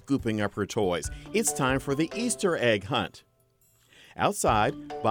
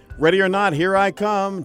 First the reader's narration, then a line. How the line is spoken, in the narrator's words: Jesse shouted